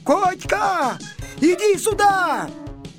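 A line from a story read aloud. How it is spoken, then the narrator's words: Shout. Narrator (Russian): закричал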